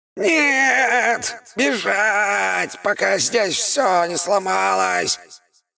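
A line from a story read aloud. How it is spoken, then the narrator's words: Almost shouting. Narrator (Russian): Душа паука практически кричала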